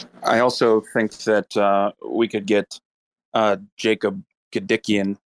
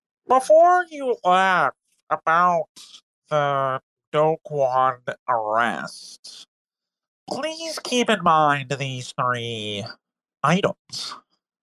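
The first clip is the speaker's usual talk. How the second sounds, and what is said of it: Nasal Jacob Gedikian impression. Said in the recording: “in my Jacob Gedikian voice ... can I ask you to squeeze your nose a bit tighter?”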